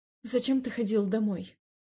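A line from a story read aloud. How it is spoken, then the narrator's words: Plain. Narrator (Russian): спросила я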